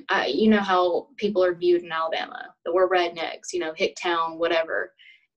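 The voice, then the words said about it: Southern US accent, Alabama. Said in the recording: “my Southern accent”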